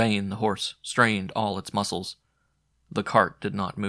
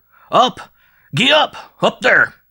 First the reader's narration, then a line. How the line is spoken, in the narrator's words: The wagoner cried still louder